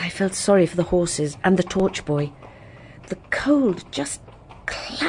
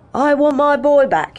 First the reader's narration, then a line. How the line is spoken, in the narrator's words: was shouting